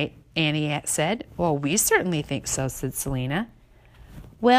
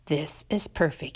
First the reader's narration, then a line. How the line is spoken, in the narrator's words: Annie whispered